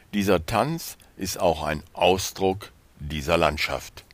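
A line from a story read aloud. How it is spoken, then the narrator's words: Calm father's voice. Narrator (German): sagte sein Vater ruhig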